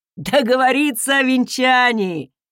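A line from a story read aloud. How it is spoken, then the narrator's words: Laughing, big man. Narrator (Russian): хохотнул здоровяк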